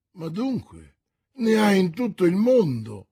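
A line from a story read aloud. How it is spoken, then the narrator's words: Exclaimed. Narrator (Italian): esclamò D'Artagnan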